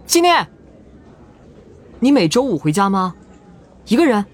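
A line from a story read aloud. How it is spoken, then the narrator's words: Calling out. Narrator (Chinese): 云建威忽然想起什么，喊住他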